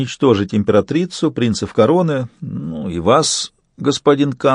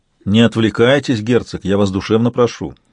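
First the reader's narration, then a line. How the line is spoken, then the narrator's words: Cold. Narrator (Russian): холодно сказал канцлер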